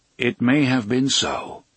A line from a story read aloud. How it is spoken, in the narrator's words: Roland agreed, standing calmly